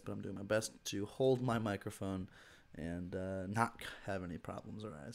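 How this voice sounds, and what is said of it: Hoarse, weird-sounding voice. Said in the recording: “I'm going through a bit of a cold. My throat is messed up, so my voice sounds weird”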